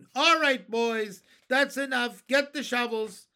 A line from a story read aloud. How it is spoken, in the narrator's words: they heard him shouting